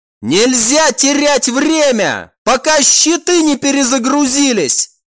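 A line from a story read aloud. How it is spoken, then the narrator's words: Commander shouting. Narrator (Russian): крикнул командор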